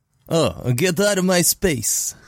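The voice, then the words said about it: Fake Romanian-Russian accent. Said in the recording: “faux Romanian Russian accent”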